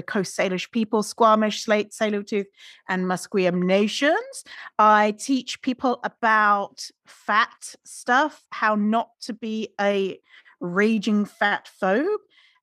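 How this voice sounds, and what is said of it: Mixed British-Irish accent. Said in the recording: “you have a better accent ... My weird accent ... you thought I was from Australia ... I am British and Irish and lived in Canada for 13 years. So that's why I sound weird.”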